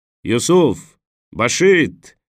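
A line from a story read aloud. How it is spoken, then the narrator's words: Driver shouting into darkness. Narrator (Russian): крикнул шофер в темноту пальмовой рощи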